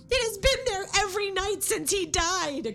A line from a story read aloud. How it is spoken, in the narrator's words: cried Rebecca